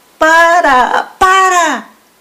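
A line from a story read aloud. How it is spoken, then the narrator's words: Shouting. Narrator (Spanish): gritaban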